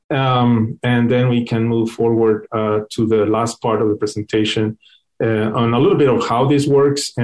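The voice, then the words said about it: Speaks fast with an accent. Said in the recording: “I speak fast. I hope you understand my accent.”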